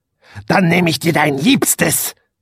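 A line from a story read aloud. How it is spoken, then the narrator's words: Witch hissing. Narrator (German): fauchte die Hexe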